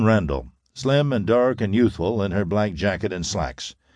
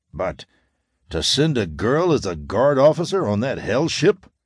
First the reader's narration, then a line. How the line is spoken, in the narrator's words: exclaimed the tall, red-haired young man angrily